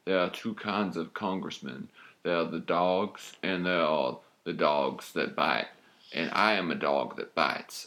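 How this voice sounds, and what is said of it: Southern accent Kevin Spacey impression. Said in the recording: “This is my southern accent. ... I'm Kevin Spacey from the show House of Cards. ... Sound a little bit like Poe from Con Air”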